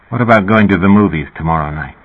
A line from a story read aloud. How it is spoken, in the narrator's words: In an enigmatic tone said